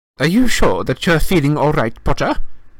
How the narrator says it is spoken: Professor McGonagall said sharply

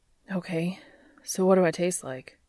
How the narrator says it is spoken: He panted, dazzled

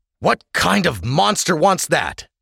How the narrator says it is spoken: Sash spat

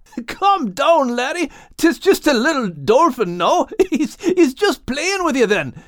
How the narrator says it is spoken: said Max, not able to withhold a laugh

